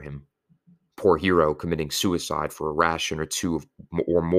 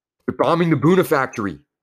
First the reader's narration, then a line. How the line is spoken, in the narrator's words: someone shouted